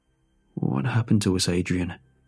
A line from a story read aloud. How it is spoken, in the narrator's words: He mumbled